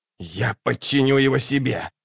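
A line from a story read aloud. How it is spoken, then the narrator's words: Hissing. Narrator (Russian): прошипел Локон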